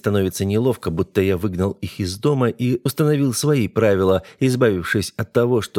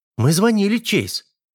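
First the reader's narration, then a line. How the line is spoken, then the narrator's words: Offended tone. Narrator (Russian): обиженно произносит Винни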